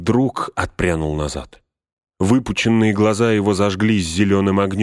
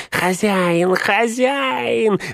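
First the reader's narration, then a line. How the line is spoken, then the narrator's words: Hoarse wheeze. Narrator (Russian): засипел он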